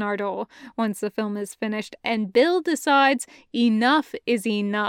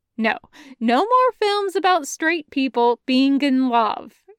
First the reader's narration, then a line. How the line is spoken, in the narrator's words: says firmly